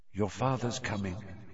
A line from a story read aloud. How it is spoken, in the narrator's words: she said quietly